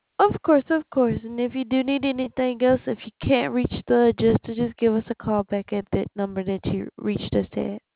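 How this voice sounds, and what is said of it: Southern US accent. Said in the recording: “You have an accent. ... South. ... I'm from Alabama.”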